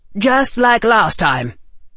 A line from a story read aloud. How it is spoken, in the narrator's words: the Rector Bones snapped